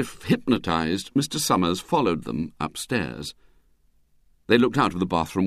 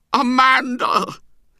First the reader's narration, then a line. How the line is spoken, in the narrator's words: he cried, in a tone of mingled joy and anguish